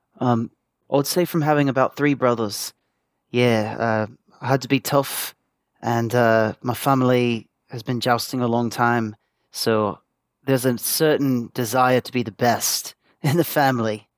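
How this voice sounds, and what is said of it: English Essex accent. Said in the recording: “that's got to be a fake accent ... You sound like the guy who plays Spider-Man ... I'm from a small town in Essex ... real accent”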